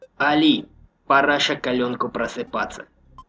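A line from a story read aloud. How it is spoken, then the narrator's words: Quiet rasp. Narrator (Russian): тихо прохрипел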